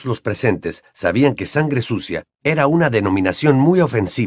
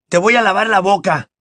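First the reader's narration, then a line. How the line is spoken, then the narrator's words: Shouted. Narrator (Spanish): gritó Ron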